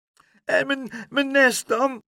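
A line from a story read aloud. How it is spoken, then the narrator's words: Sobbing. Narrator (Dutch): snikte Leentje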